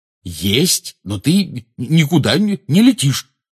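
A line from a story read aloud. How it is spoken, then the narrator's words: Angry declaration. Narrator (Russian): сердито заявил Рон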